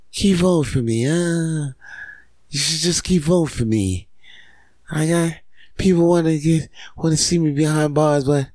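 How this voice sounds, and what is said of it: Donald Trump impression. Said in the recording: “a Trump accent”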